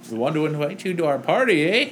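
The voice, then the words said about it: Exaggerated stereotypical Canadian accent. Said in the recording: “he has like an overly obnoxious, like stereotypical Canadian accent ... it's just a super like stereotypical Canadian accent”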